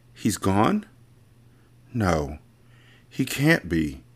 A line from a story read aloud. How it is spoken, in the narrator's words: Lena said as her voice began to shake